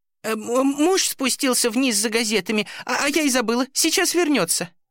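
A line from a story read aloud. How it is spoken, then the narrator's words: Trembling woman's explanation. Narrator (Russian): дрожащим голосом пояснила женщина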